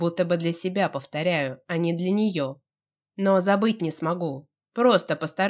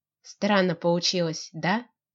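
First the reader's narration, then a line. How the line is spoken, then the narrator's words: Quiet question. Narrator (Russian): спрашивает она тихо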